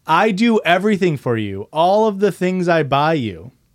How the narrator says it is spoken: He started yelling even louder, saying

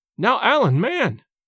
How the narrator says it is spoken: cried James

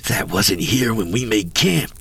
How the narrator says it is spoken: I hissed

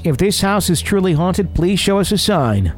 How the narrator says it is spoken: Chambers yelled out in all of his cockiness

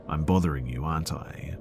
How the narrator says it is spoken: says in her monotone, slightly annoyed voice

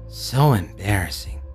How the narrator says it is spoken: grumbled under his breath

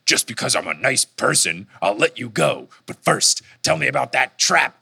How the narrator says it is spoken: Percy snarls and says

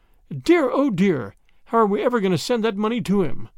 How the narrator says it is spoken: she exclaimed

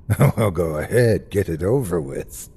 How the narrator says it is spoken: he said with a bitter laugh

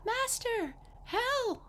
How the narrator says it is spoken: the harp cried out

